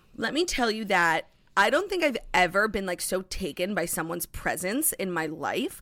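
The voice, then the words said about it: Emotional, moved voice. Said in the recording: “getting emotional.”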